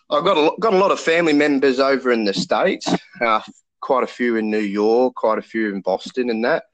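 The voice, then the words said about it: Australian accent. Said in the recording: “I'm from the land down under, as you could probably tell by the accent.”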